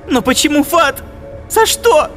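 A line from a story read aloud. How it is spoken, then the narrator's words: Shouting girl. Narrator (Russian): закричала девушка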